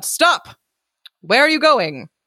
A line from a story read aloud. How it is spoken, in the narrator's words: the sentry called out